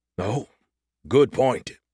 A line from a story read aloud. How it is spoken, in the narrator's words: he groaned